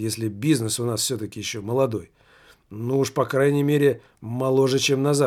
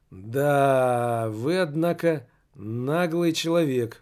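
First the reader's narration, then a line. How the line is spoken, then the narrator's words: Drawl. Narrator (Russian): протянул директор фирмы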